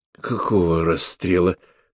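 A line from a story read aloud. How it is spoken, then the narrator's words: Hoarse questioning. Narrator (Russian): хрипло переспросил Сапатов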